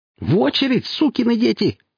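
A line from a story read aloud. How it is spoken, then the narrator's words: Sudden shriek. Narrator (Russian): завизжала вдруг Василиса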